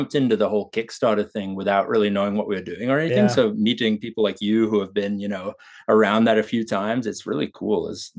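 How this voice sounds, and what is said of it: English accent with Australian tinge. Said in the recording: “what's the accent ... It's a bit of a mix. I grew up in England, but my dad's side is Australian ... More Aussie in there than English for sure”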